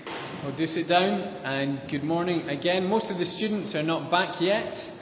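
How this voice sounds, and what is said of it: Scottish accent, fast speech. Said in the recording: “my Scottish accent and the speed at which I speak proves a challenge”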